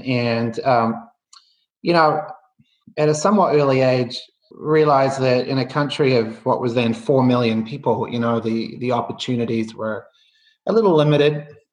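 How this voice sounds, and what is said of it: Softening New Zealand accent. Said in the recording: “you can probably tell by the accent, or I think it's softening, but I grew up in New Zealand”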